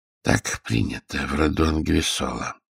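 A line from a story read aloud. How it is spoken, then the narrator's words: Calm. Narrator (Russian): спокойно заметил Джервазио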